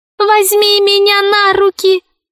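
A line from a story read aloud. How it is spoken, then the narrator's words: Squeaky voice. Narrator (Russian): пропищал мяч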